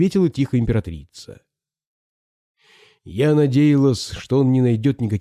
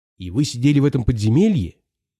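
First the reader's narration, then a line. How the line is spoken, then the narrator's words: Plain question. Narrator (Russian): спросила Алиса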